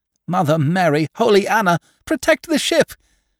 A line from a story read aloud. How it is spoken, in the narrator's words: shrieked the fat soap maker